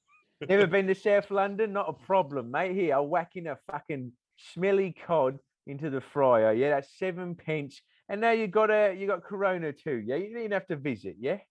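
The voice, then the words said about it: Put-on South London accent. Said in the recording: “You doing the voice of the guy from the Eel Pie. ... He's supposedly from South London, yeah?”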